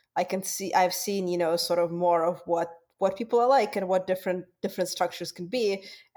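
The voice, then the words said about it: Foreign accent in English. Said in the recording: “questioning about my accent... being an immigrant”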